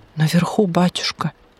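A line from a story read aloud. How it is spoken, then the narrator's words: Frightened explanation. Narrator (Russian): испуганно пояснил сторож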